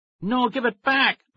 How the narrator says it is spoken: Max cried

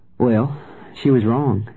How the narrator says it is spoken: I said evenly

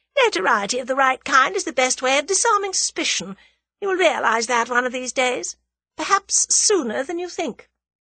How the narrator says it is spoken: laughed the woman

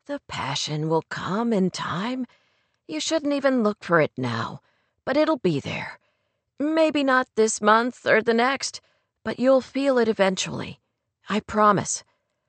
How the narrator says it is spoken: he said in a soothing voice

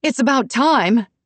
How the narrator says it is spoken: she yelled

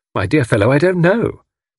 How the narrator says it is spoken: said Tommy cheerfully

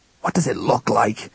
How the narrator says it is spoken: he said through gritted teeth

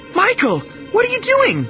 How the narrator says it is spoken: Daisy cried

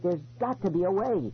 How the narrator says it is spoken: I cried

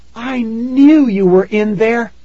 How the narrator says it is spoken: Tara cried

